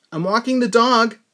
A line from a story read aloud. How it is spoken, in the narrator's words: I yelled